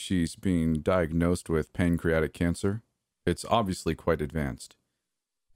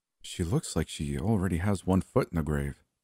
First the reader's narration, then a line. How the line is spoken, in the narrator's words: Nancy whispered